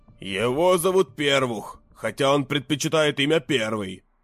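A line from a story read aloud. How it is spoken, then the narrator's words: Gloomy, heavy. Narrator (Russian): мрачно сказал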